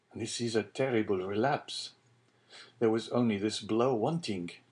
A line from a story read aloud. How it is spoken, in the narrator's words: murmured Edmond to himself